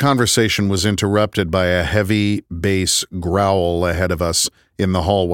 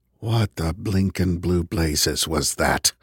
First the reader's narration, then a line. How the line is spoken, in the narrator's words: Kevin whispered